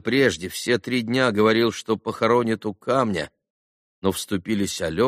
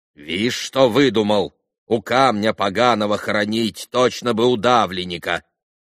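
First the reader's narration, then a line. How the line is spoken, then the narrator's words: Stern old woman. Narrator (Russian): строго проговорила старуха-хозяйка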